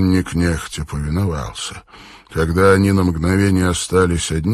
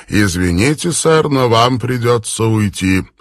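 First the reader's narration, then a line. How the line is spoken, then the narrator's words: Cold official tone. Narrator (Russian): охранник Исай холодным официальным тоном заявил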